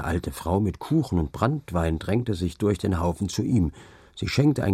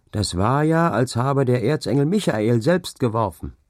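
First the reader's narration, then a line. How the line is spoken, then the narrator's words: Called from a crowd. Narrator (German): rief es aus dem Haufen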